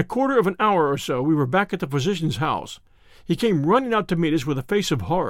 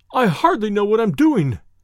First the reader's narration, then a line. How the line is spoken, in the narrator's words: he cried